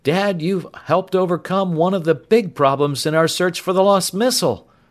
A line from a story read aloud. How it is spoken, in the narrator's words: Tom exclaimed